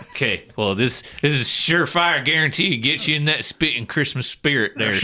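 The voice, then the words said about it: Put-on Southern country accent. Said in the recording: “you wallered into that Southern accent ... He's like falling downstairs into an accent ... I just keep feeling like I need to do a country accent”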